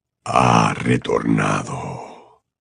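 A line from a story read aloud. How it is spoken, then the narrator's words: Soft voice. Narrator (Spanish): dijo con voz suave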